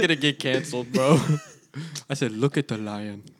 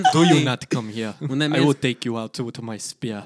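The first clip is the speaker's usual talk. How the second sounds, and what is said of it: Imitated African accent. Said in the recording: “You did a good impression of my African ... make the accent ... his African accent”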